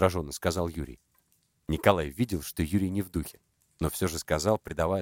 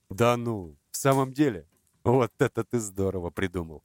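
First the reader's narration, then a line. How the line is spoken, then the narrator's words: Laughing. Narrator (Russian): Засмеялся Николай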